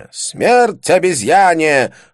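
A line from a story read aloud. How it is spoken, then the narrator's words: Joking shout. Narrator (Russian): выкрикнул какой-то шутник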